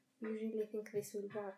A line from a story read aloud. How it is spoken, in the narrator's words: He asked quickly